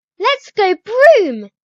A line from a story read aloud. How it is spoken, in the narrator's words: She squeals